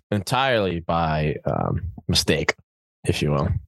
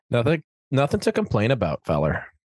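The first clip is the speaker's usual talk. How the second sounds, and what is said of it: Slight put-on Canadian accent. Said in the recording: “Just feeling Canadian. ... Was that a Canadian accent that I affected? ... It was a little something something.”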